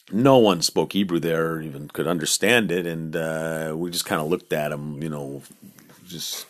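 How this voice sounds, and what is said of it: Usual voice. Nothing is said of it.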